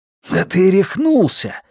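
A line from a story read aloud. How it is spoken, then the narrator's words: Horrified exclamation. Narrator (Russian): в ужасе воскликнул Джордж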